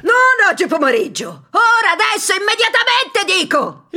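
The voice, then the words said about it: Shrill angry shouting. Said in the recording (Italian): “lo udì strillare ... sfuriate”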